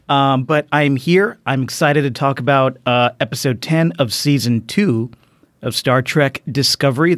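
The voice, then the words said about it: Strained, failing voice. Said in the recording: “My voice is fucked. ... I'm already losing my voice.”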